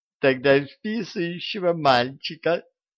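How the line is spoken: Giggle. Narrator (Russian): хихикнула Дуняшка

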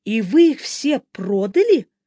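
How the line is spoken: Exclaiming. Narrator (Russian): воскликнула Эбби

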